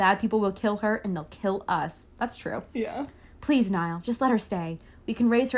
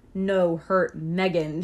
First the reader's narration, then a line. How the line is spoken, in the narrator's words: she growled protectively